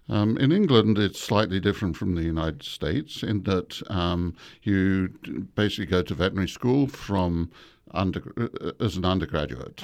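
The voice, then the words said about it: English accent. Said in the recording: “you should hear a nice accent coming from ... today ... I grew up in England”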